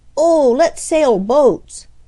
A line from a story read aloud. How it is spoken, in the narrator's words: exclaimed Freddie